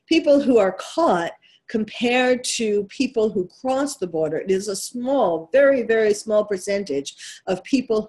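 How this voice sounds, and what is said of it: New York accent. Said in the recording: “that's my New York accent coming through”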